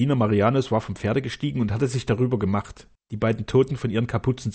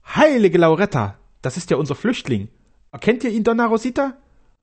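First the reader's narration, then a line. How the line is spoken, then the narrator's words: Castellan calling out. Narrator (German): rief der Kastellan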